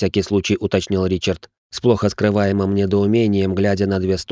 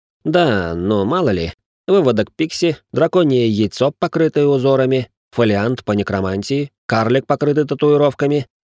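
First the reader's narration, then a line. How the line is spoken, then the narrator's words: Sarcastic young nobleman. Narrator (Russian): язвительно предположил графёныш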